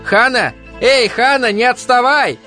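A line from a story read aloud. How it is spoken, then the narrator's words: Playful shout. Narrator (Russian): задорно закричал Ганс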